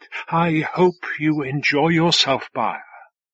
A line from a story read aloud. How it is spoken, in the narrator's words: sighed